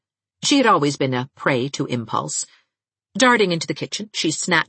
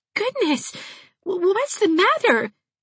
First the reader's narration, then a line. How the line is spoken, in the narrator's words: gasped Dot Fraser